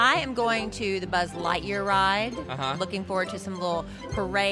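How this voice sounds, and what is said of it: Usual voice. Nothing is said of it.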